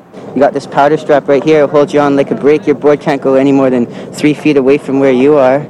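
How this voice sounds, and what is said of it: Weird Brooklyn-like mixed accent. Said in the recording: “the weirdest fucking accent. ... It's like a mixture of, I don't know, it's like Brooklyn. It's weird.”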